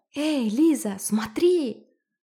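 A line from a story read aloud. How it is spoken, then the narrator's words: Shouting. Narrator (Russian): крикнул Гришка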